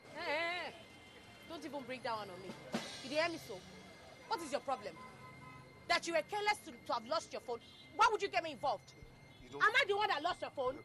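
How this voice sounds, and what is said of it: Shouting angrily. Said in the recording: “stop shouting”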